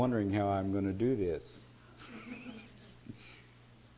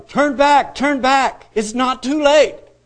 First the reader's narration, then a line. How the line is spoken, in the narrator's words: were yelling